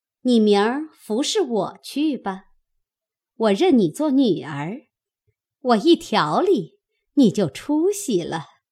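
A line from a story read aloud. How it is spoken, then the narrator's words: Laughing. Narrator (Chinese): 又向红玉笑道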